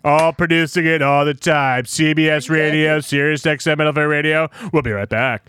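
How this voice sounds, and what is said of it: Adam Schein sports radio impression. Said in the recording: “my Adam Shine and voiceover impersonation ... He sounds like that all the time.”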